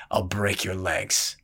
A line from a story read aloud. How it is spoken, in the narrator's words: the brawler growled